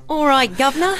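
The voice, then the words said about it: Put-on Cockney accent. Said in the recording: “we've been practicing our Cockney accents, and we're not too well ... can we have it in a Cockney accent?”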